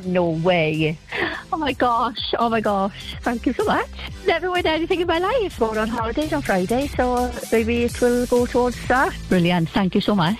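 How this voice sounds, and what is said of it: Noticeable regional accent. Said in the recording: “Brilliant accent.”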